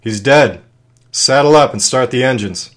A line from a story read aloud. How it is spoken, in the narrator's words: Clemente yelled